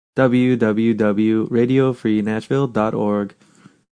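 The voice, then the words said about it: Bad fake robot voice. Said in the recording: “my fake robot voice that I'm just bad at it”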